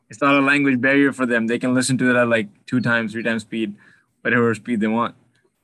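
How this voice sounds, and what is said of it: Speaks English with an accent. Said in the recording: “the audience just loves my accent”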